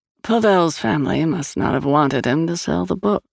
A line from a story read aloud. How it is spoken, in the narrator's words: she murmured